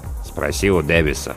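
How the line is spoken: Grumbling mutter. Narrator (Russian): буркнул помощник навигатора Сноу

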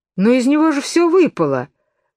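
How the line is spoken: Exclaimed. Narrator (Russian): воскликнула Алиса

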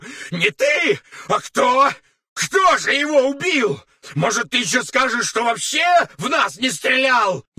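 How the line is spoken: Furious yelling. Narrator (Russian): Яростно орал Таманцев

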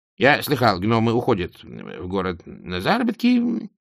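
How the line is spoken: Hesitant, king. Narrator (Russian): неуверенно произнес король

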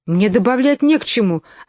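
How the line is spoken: Offended. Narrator (Russian): обиженно сказала Алиса

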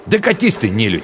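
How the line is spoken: Angry snap. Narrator (Russian): Зло огрызнулся он

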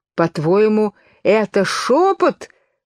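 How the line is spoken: Wretched, trembling wail. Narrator (Russian): взвыл несчастный король, содрогаясь

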